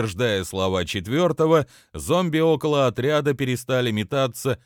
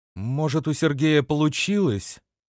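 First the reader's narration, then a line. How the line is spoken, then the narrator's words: Uncertain suggestion. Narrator (Russian): неуверенно предположила Инна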